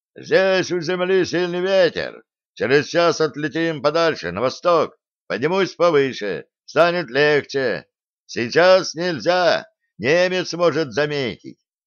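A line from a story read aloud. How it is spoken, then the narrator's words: Relenting shout. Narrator (Russian): Наконец он сжалился и прокричал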